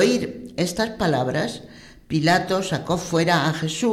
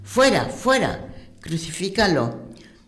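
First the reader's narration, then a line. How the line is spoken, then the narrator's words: Shouting crowd. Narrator (Spanish): Ellos gritaban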